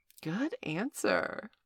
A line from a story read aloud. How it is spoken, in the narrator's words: purred Valerie